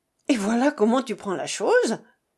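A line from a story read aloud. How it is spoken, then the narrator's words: Impetuous woman exclaiming. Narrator (French): s'écria son impétueuse compagne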